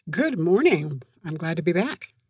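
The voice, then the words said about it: Polished radio announcer voice. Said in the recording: “She's got her radio voice on today.”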